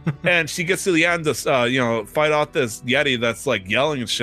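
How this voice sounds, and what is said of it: Usual voice. Nothing is said of it.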